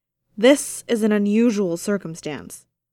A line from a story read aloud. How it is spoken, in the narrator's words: bellowed, the acoustics of the cavern helping his voice carry